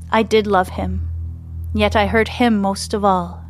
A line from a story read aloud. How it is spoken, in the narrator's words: she says, her voice filled with regret